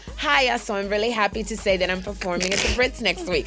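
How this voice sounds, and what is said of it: Put-on accent sounding Jamaican. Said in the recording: “Why do you sound Jamaican?”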